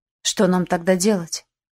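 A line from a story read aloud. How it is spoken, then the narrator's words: Dejected question. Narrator (Russian): упавшим голосом спросил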